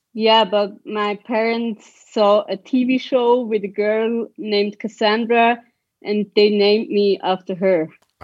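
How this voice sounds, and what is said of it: Swiss accent. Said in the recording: “your name and your accent don't go together ... I'm from Switzerland”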